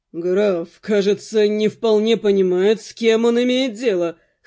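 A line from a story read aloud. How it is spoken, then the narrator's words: Chuckling. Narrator (Russian): хохотнул Алонсо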